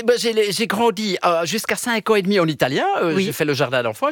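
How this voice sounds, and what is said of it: Belgian French accent. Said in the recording (French): “On vous entend avec un accent belge”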